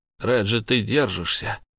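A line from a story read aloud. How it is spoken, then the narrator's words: Forced, strained. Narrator (Russian): выдавил я из себя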